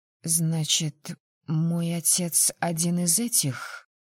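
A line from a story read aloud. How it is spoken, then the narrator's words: Muffled question. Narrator (Russian): глухо спросила я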